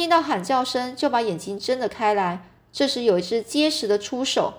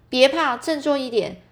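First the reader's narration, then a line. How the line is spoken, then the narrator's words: Shouting. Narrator (Chinese): 有人喊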